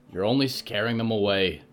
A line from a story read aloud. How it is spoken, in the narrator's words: Victoria grunted